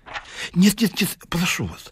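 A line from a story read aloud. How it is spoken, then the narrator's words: Pleading. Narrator (Russian): взмолился Ларичев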